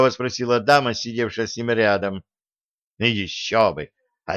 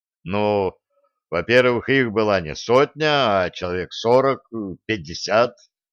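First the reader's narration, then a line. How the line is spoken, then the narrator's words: Slow deep rumble. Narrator (Russian): степенно прогудел Денис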